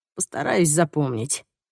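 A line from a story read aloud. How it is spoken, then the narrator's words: Sighing, lounging. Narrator (Russian): вздохнул наш телеведущий, растянувшись на диване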